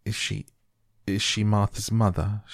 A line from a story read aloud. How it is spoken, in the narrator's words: She stammered